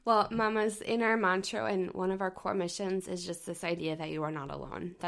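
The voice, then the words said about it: Congested voice, sounds like old man. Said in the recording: “I have a sinus infection, so I sound like an old man.”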